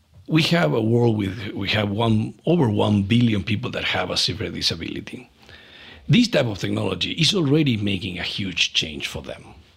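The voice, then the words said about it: Non-native English accent. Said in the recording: “I guess you likely realize by my perfect English accent, English is not my native. I'm not the native speaker.”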